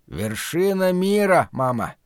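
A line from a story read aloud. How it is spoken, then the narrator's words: Hoarse wheeze. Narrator (Russian): прохрипел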